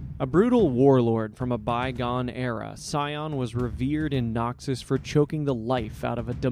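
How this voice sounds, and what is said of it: Usual voice. Nothing is said of it.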